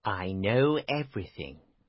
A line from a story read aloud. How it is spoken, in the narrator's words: he told quietly